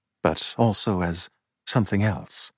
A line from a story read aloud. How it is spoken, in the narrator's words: Charles continued, his voice low